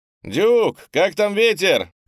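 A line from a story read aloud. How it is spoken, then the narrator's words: Shouted. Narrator (Russian): крикнул панда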